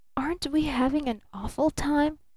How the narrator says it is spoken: she whispered

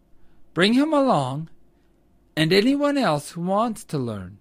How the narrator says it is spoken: replied Old Mother Nature kindly

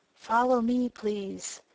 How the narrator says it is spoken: whispered

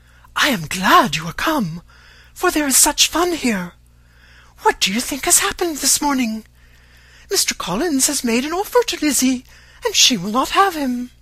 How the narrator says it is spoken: Lydia, who, flying to her, cried in a half-whisper

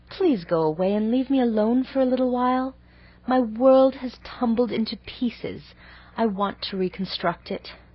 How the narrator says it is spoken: pleaded Anne

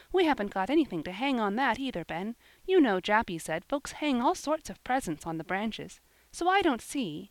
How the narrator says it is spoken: she continued impatiently

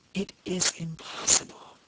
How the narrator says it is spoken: repeated the colonel in a voice that was nearly choked

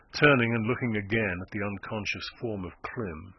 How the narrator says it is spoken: he murmured

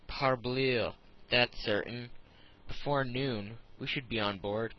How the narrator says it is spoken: It was said so positively

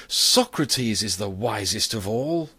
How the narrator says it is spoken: the people applauded more loudly than before, and cried

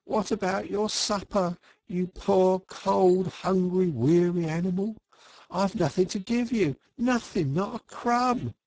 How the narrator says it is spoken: he moaned

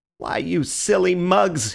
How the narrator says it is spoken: he cried

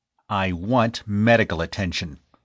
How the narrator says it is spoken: snapped the other, cradling his seared hand to his chest

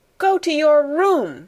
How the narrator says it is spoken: cried Miss Minchin, breathlessly

